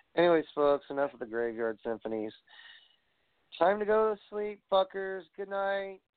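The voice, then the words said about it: Tired-sounding voice. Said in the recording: “I'm fucking tired. So can you tell by my voice? my inflection of my pretty, pretty voice.”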